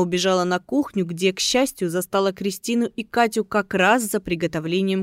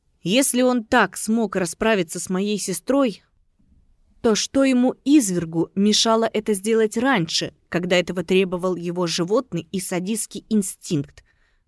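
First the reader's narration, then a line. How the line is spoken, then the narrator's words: Hissed. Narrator (Russian): зашипела Катя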